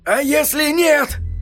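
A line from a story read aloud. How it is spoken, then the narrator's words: Hoarse croak. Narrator (Russian): хрипло прокаркал Эдди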